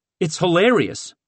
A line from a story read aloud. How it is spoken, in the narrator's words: Hayes said, but the humor quickly faded